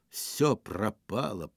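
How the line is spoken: Muttered. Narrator (Russian): пробормотал он

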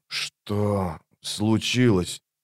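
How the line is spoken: Wheezing. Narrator (Russian): прохрипел он

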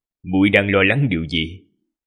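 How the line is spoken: Gentle, smiling voice. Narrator (Vietnamese): Đại sư huynh mỉm cười ôn hòa rồi nói

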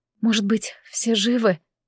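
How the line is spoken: Whisper. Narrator (Russian): прошептала я

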